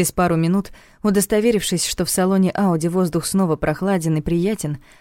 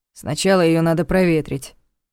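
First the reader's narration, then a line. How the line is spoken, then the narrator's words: Grumbling. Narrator (Russian): проворчал тот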